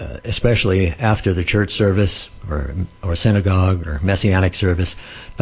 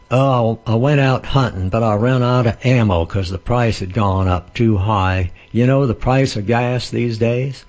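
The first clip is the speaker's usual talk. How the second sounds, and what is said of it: Put-on regional accent. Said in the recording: “I'm not knocking the accent there. I think it's good to have different accents.”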